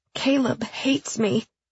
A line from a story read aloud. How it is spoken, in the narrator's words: Emily said miserably